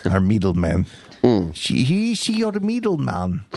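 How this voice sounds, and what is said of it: Poor put-on Greek accent. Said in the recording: “That's the worst Greek accent. I can't even do my own accent.”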